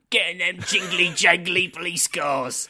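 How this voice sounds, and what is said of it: Poor impression of another person's voice. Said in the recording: “worst Michael Caine impression ... That's terrible. That's really terrible.”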